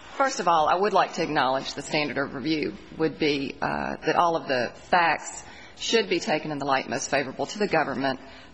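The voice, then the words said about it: Southern American accent. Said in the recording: “You also may not be used to a Southern accent. I'm from Nashville, Tennessee. ... it's a Southern accent.”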